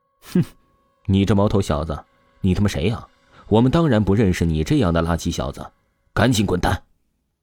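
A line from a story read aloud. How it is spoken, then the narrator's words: Contemptuous, scornful. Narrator (Chinese): 守门的两个保镖当下就是鄙夷的出声道，言语当中他们毫不掩饰对王峰的瞧不起之意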